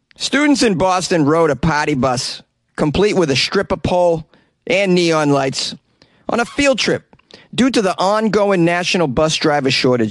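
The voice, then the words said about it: Put-on Boston accent. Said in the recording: “This story is going to be featuring a Boston accent.”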